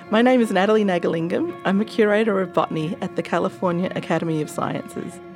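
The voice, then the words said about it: Australian accent. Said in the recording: “another Australian transplant ... accent.”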